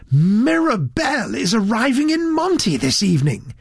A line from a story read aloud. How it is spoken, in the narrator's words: he confided excitedly to Mr